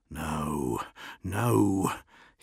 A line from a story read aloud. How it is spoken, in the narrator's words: he whispered